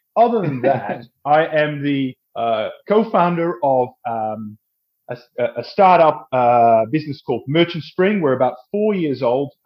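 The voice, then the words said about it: Dutch accent with Australian influence. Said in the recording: “I'm actually Dutch, but I live in Australia, hence the strange accent”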